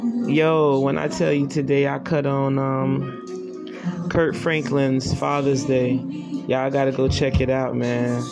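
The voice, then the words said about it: Messed up, unwell-sounding voice. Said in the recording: “My voice is messed up. I haven't been feeling good.”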